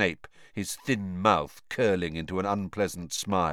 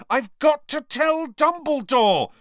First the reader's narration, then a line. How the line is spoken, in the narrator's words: Harry yelled